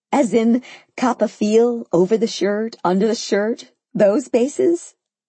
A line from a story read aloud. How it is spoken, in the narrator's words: I laughed incredulously